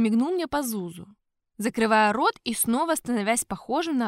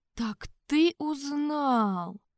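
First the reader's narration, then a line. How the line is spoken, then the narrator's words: Slow reply. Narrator (Russian): медленно ответил я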